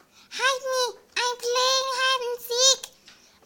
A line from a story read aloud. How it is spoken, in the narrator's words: Gum Gum squealed and shouted